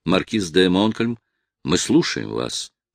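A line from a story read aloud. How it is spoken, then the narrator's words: Calm. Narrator (Russian): спокойно произнес ветеран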